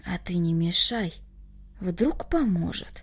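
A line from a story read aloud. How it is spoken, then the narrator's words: Hopeful whisper. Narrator (Russian): в надежде шепнул Коля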